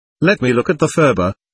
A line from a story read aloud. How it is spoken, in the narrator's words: said